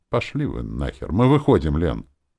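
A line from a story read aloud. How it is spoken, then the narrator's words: Strained, forced out. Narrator (Russian): выдавил из себя Петя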